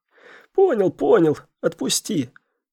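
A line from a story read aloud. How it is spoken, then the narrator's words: Hoarse wheeze. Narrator (Russian): прохрипел Лысый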